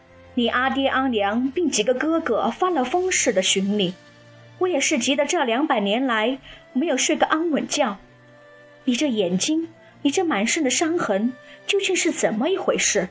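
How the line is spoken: Deeply sighing. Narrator (Chinese): 大是感叹

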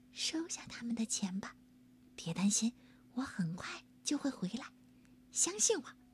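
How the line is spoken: Very quiet. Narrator (Chinese): 汤姆特别小声的对爸爸说

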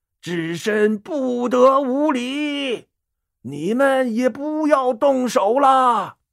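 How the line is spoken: Loud stern shout. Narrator (Chinese): 智真长老高声喝道

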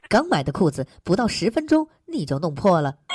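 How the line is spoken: Angry. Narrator (Chinese): 我就怒道

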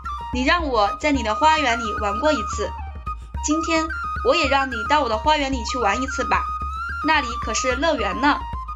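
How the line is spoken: Smiling child. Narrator (Chinese): 那小孩向巨人笑笑，对他说

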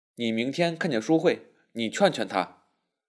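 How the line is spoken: Low voice. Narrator (Chinese): 又低声说

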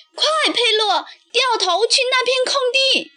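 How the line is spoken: Urgent shout. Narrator (Chinese): 卡门看见倒在地上的自行车，喊道

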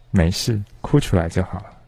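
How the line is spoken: Soft voice. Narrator (Chinese): 轻声说

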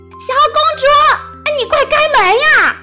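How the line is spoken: Shouting. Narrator (Chinese): 喊声

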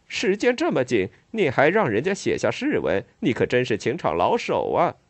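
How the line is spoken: Crowd laughing teasingly. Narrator (Chinese): 众人都哄笑起来

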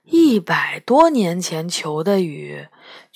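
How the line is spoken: Sighing. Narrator (Chinese): 杨永乐叹了口气说

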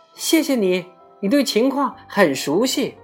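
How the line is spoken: Cawing reply. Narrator (Chinese): 乌鸦喳喳的叫着回答

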